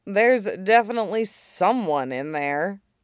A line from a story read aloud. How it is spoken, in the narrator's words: Shizuru murmured